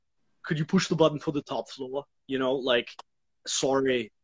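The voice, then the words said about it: Imitates another person's voice. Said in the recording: “That accent was fun ... my poor attempt at an Arnold Schwarzenegger ... I thought it was very good”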